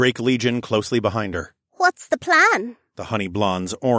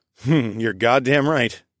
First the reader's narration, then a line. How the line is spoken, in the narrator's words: I chuckled